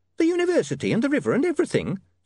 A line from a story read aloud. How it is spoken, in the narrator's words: said the landlady nervously